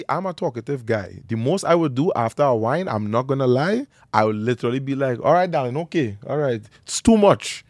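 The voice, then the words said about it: Strong Trinidadian accent. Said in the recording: “strong little accent ... I'm from Trinidad and Tobago ... the accent, it's quite powerful”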